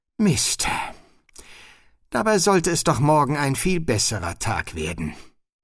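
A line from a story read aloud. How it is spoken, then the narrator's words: Sighing. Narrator (German): Sie seufzte und sagte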